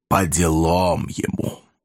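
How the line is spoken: Hollow, ominous. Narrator (Russian): мрачно улыбнулся и добавил глухим, зловещим голосом

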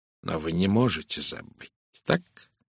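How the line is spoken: Soft. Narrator (Russian): мягко произнес Пуаро

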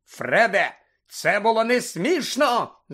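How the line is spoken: Shouted. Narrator (Ukrainian): закричав

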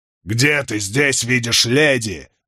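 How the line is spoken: Roaring. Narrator (Russian): взревел Чаури

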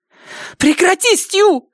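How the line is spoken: Breathless shriek. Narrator (Russian): взвизгнула она, тщетно пытаясь отдышаться

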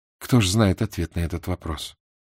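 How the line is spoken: Quiet. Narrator (Russian): тихо сказала она

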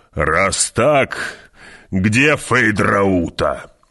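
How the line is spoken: Growled, baron. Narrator (Russian): прорычал барон

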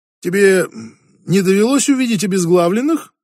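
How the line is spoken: Joking tone. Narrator (Russian): спросил Фредерик шутливым тоном

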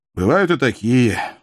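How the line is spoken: Weary. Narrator (Russian): устало сморгнул бывший филолог

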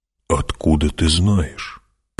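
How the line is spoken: Whisper. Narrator (Russian): прошептал он

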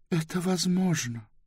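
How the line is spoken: Quiet. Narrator (Russian): тихо сказала Близ

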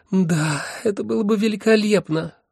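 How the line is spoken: Sighing. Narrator (Russian): вздохнула первая

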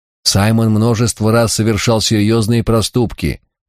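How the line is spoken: Embarrassed grumble. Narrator (Russian): залившись краской, пробурчал аббат

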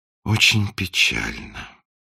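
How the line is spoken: Sighing. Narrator (Russian): вздохнул принц

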